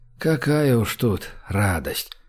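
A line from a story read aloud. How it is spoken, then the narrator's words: Sighing. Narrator (Russian): вздохнул Гош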